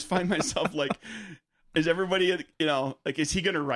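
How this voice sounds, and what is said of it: Usual voice. Nothing is said of it.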